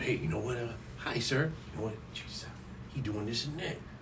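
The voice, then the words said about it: Whispering, very quiet. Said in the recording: “Don't be whispering on the podcast. Nobody can hear”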